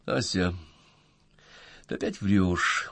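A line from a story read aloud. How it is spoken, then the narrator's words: Weary. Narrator (Russian): устало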